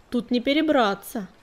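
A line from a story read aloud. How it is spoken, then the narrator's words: Snorting. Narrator (Russian): фыркнул долгохвост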